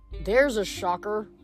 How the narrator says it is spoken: Leo muttered

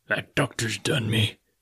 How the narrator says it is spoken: he murmured

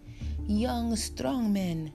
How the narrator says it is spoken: Jesus' general shouted from the front of the bus

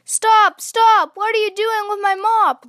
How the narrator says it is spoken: somebody yell

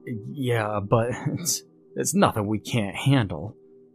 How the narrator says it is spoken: I stammer

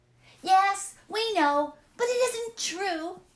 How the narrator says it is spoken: they cried

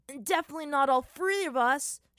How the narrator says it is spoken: shouted the voice of Sokka, emerging from below

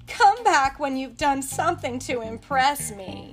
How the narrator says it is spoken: Their leader, Bellbottom, laughed and said

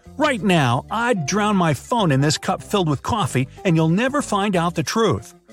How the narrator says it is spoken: she shouted

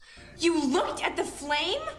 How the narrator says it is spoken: she yells

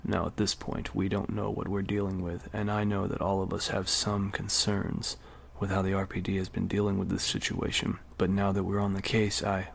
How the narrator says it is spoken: The captain lowered his voice and continued

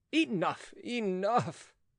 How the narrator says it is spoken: groaned Philippe

